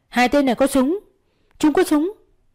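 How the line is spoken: Desperate scream. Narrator (Vietnamese): Cô chỉ có thể gào lên

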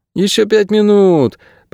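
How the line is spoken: Groan. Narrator (Russian): простонала Кейса

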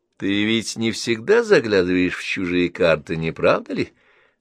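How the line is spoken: Mocking question. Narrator (Russian): спросил он насмешливо

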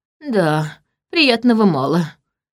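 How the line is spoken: Sighing. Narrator (Russian): вздохнул он

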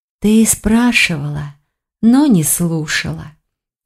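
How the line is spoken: Sighing. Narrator (Russian): вздохнула Тиган

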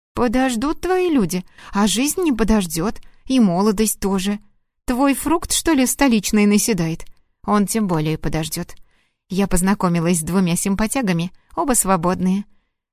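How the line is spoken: Joyful. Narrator (Russian): радостно сообщила Лена

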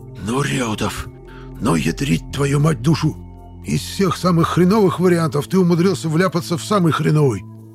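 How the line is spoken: Loud hissing whisper. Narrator (Russian): Громким шепотом прошипел Панасыч

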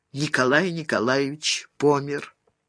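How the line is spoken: Shaken but firm voice. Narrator (Russian): Дарья Степановна и потрясенным, но твердым голосом сообщила

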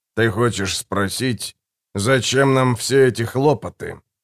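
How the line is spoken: Muffled voice. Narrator (Russian): произнес человек глуховатым голосом

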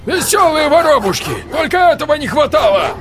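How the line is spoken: Barking. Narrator (Russian): Рявкнул Леминов

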